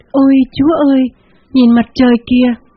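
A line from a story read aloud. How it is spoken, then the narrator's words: Woman's sudden cry. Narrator (Vietnamese): một phụ nữ còn đứng trước đầu xe bỗng kêu lên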